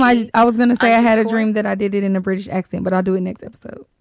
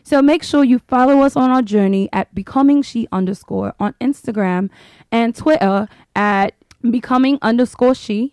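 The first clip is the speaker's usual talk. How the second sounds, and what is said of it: Put-on British accent. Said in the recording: “I'm gonna do this portion in my British accent.”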